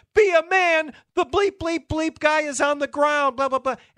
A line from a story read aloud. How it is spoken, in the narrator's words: La Russa starts screaming again